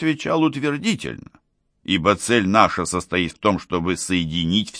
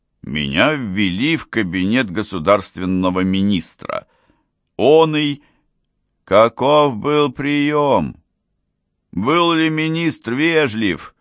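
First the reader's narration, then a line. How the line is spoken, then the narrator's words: Dry monotone clear ringing. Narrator (Russian): Бурдон сказал сухим, однообразным, но чистым и звонким голосом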